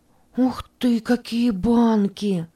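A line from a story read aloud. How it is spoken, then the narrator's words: Excited exclamation. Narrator (Russian): воскликнула Катя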